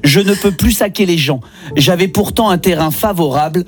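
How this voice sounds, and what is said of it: Speaks with an accent. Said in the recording (French): “j'ai un accent ... je le lis avec mon accent”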